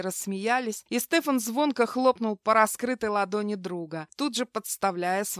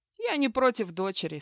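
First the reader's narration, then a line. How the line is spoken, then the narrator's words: Calm. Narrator (Russian): спокойно кивнул Хью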